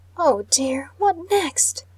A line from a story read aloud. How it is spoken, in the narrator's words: I exclaimed in a distressed voice